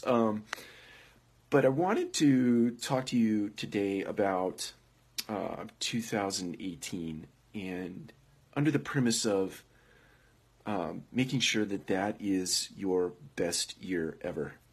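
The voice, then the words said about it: Sick, rough-sounding voice. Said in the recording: “I'm a little under the weather, forgive my voice.”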